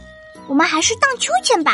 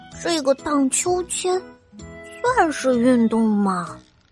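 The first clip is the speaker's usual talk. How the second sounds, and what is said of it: Quiet muttering voice. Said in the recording (Chinese): “低着头， 小声的嘀咕着”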